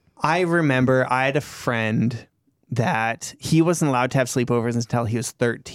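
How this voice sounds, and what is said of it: Usual voice. Nothing is said of it.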